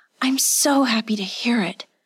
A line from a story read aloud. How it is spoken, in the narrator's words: she breathed